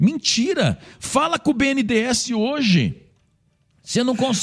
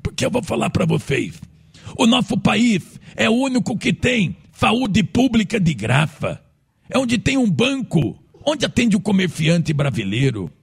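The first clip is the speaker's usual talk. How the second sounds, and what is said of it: Imitates another person's voice. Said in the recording (Portuguese): “Imitando o Lula, você. ... A melhor imitação do Lula velho que eu conheço.”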